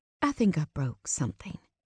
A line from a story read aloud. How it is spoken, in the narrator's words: she says quietly